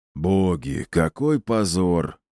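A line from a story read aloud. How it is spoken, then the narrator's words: Heavy sigh. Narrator (Russian): Тяжело вздохнул он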